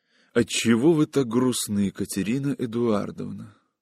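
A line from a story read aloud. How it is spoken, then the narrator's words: Soft whisper. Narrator (Russian): Павел тихо прошептал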